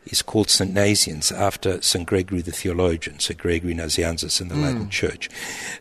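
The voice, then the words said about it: Non-local foreign accent. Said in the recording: “our listeners can already pick up from your accent that you're not from these parts ... my accent is not even Romanian”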